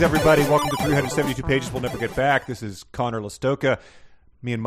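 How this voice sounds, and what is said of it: Usual voice. Nothing is said of it.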